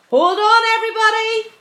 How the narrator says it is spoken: James called out

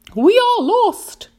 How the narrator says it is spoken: cried the ladybird

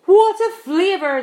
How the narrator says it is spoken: the centipede cried

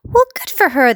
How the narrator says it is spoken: the cops cried out

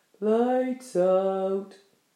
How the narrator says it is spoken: said the centipede drowsily

